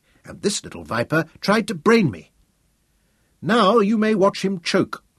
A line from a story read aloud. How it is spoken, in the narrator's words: William said grimly